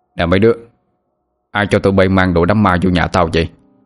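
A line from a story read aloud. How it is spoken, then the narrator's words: Annoyed raised voice. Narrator (Vietnamese): Ông bực mình cao giọng hỏi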